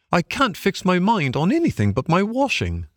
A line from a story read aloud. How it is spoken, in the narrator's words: said the bargewoman